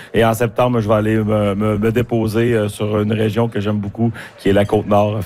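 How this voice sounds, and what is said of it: Strong regional Quebec French accent. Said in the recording (French): “vous appuyez l'accent”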